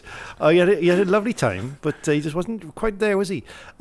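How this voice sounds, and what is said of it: Fairly good put-on Welsh accent. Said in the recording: “for you, that was actually a pretty decent accent. That's a pretty. I mean, I am from near Wales, but that's a pretty good accent, isn't it? ... do your Jacob McLaren in a Welsh accent”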